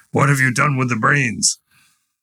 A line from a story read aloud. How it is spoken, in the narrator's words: the lion asked the fox in a terrible voice